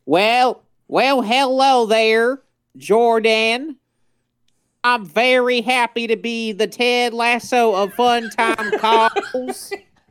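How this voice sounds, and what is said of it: Put-on Southern accent. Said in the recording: “I think you need to work on your southern accent here. Let me help you out. ... show him how it's done. You do what you would sound like if you actually did have your state accent.”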